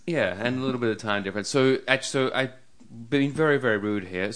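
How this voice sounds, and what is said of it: Foreign accent. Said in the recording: “It's my funny accent as well ... It's my being a foreigner”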